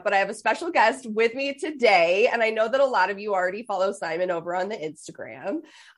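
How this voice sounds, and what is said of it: Stuffed-up, congested voice. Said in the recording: “I have a little bit of a cold. Um, so that's why I sound stuffed up.”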